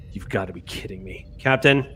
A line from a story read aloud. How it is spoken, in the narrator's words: the unmistakable sort of like mutterings of Prawl going